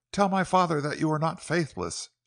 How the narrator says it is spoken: she pleaded

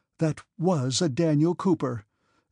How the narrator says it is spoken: exclaimed Marya Dmitrievna, puffing heavily

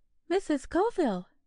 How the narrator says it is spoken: she exclaimed, fluttering

